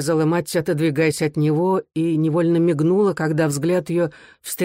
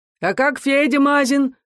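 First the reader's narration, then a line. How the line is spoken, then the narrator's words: Shouting from afar. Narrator (Russian): крикнул хохол из кухни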